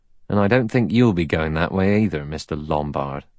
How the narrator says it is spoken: He added dryly

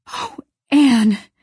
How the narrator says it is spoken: gasped Diana, weeping with relief and delight

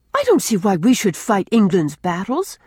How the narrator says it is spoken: cried Rilla

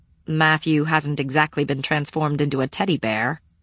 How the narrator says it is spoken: I said dryly

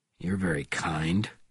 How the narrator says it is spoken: he said coldly

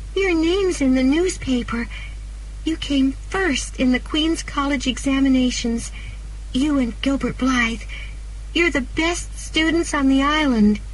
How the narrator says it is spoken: cried excitedly

